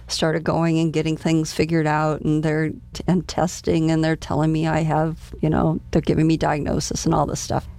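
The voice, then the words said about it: Hoarse voice. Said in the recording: “I'm hoarse. I'm losing my voice”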